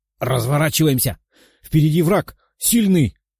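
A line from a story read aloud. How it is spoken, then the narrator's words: Young man exclaiming. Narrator (Russian): воскликнул парень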